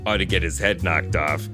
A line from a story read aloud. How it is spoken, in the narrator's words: I muttered